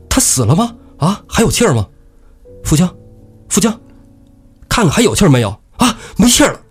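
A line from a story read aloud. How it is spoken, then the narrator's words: Clamoring crowd. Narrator (Chinese): 众人就七嘴八舌在那叫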